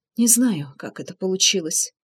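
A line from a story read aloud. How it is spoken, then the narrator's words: Quiet, nervous. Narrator (Russian): тихо произнесла она, нервно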